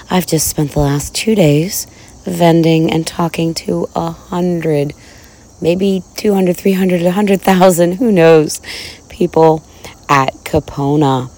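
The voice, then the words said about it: Rough, hoarse voice. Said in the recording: “I think you can hear from my voice that it's a little rough.”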